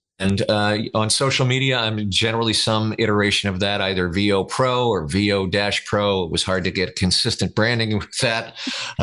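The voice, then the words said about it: Rich, resonant radio announcer voice. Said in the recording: “radio voice ... these radio voices”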